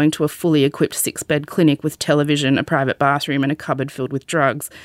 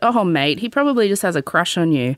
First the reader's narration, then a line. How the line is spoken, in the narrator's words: he just laughed and said